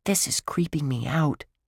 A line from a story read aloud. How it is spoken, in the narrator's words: Josh whispered